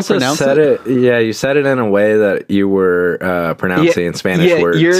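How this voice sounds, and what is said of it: Usual voice. Nothing is said of it.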